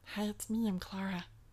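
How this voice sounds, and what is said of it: Made-up voice for the pet cat. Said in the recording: “as I like to uncomfortably say around the house all the time in her voice we've given her”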